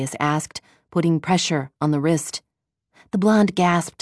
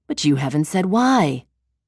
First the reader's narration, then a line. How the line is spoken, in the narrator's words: Darius responded in a reasonable tone